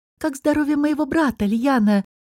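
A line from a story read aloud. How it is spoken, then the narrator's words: Trembling voice. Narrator (Russian): дрожащим голосом спросила королева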